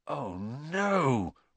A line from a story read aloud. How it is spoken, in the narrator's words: Ron gasped